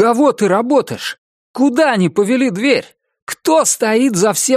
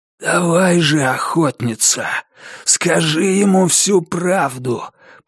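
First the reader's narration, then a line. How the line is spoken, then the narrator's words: Hoarse rasp. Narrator (Russian): прохрипел маркиз Карабас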